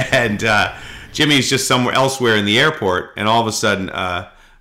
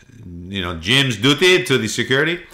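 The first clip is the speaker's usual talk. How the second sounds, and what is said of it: Put-on French accent. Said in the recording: “I don't know why I sounded French there.”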